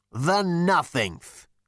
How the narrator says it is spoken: spat the figure

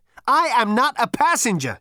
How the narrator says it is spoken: shouted Zaphod again

